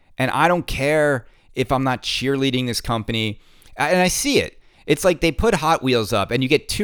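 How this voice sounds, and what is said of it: Usual voice. Nothing is said of it.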